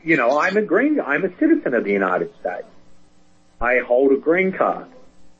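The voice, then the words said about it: Australian accent. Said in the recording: “I have a thick Brooklyn accent. Actually, I'm joking. It's Australian.”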